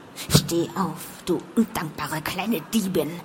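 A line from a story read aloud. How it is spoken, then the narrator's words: Hissing in ear. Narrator (German): zischte er mir ins Ohr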